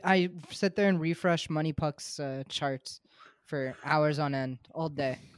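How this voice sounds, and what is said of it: Sarcastic deadpan delivery. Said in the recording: “I know you're being sarcastic ... Your voice.”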